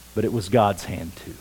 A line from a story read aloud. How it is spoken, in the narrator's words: replied Anna gently